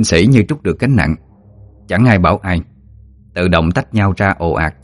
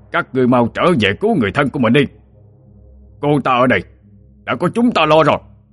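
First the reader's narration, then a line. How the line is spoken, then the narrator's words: Shout. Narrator (Vietnamese): Ông ta quát lên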